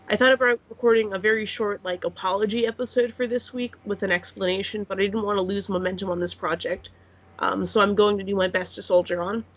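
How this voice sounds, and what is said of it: Nasal, congested voice. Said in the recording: “my results came back positive ... I apologize if I sound nasally, like I can hear myself talking”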